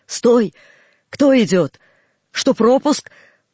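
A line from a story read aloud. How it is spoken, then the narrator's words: Shouted. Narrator (Russian): Часовой крикнет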